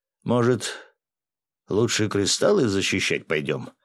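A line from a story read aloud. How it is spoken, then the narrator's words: Grumbling, usually silent man. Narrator (Russian): проворчал обычно молчаливый четвертый ликвидатор Семен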